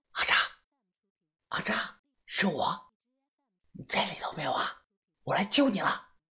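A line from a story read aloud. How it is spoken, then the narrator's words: Soft calling. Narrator (Chinese): 小声的叫道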